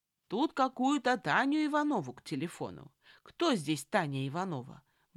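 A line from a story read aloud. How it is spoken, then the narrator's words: Loud, muffled behind door. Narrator (Russian): громко вопрошал он за дверью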